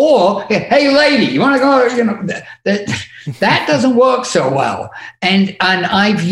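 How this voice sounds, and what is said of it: Usual voice. Nothing is said of it.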